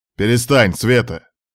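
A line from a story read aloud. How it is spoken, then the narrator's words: Barked angrily. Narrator (Russian): Рявкнул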